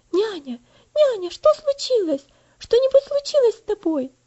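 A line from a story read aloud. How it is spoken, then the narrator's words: Girl's alarmed voice. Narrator (Russian): спросила девочка встревоженным голосом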